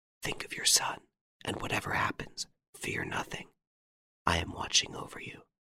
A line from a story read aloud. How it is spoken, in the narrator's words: whispered